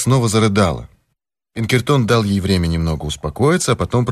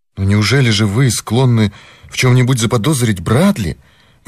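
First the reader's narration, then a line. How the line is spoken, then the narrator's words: Exclaiming. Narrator (Russian): воскликнула миссис Морган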